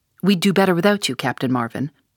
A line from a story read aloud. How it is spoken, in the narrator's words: said McGinty coldly